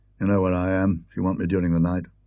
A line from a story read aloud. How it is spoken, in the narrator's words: he murmured, in a gruff undertone